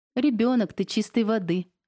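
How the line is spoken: Laughing. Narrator (Russian): рассмеялась я

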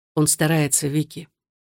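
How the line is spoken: Quiet. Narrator (Russian): тихо произнес Александр

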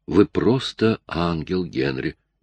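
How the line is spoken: Tender woman. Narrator (Russian): нежно сказала она

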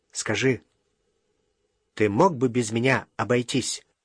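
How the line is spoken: Quiet. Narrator (Russian): произнес тихо

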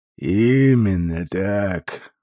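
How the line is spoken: Grim, smiling. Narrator (Russian): мрачно улыбнулся Мамри

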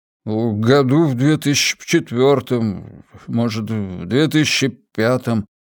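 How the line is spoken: Uncertain, drawn out. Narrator (Russian): неуверенно протянул Виджей

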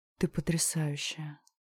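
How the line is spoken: Whispering. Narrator (Russian): шепнул Леха

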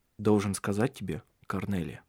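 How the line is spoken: Calmer. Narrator (Russian): уже более спокойно произнес он

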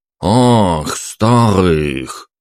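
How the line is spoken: Thoughtful drawl, moneylender. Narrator (Russian): протянул ростовщик задумчиво

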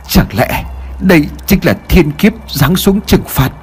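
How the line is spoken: Trembling voice. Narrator (Vietnamese): Thầy Lương ... miệng của ông run rẩy nói

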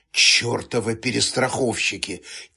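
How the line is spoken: Quiet cursing. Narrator (Russian): тихо выругалась Регина

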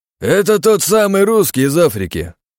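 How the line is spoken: Loud. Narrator (Russian): громко произнес Штейгер

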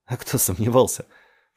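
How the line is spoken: Noisy exhale, fake laugh. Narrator (Russian): шумно выдохнул Варинг и снова притворно рассмеялся

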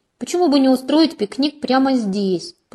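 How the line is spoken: Moaning. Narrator (Russian): простонала

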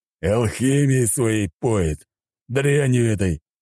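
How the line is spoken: Big man growling. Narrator (Russian): рыкнул здоровяк

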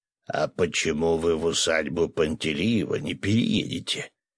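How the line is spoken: Deep bass voice. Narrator (Russian): пробасил Виктор Давидович

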